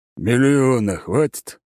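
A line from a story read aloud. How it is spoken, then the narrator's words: Deep bass voice. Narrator (Russian): снова пробасил потенциальный клиент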